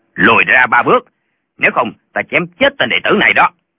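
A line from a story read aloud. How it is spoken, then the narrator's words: Threatening bark. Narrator (Vietnamese): Một tên bịt mặt quát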